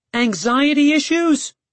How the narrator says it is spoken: I yelled from my room

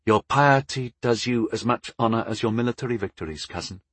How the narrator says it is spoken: Anguin said smoothly

